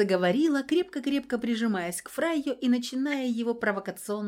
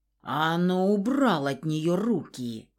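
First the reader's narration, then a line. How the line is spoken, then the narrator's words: Angry hiss. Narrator (Russian): гневно прошипел Фауст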